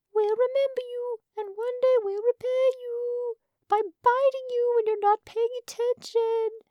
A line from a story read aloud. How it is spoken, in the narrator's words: the ant king called out